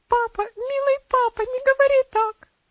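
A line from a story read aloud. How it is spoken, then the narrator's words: Sobbing exclamation. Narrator (Russian): воскликнула она, разрыдавшись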